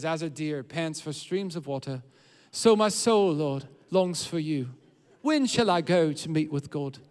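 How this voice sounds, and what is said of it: Put-on unidentified accent. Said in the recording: “that's my best. I don't know what accent that is, actually.”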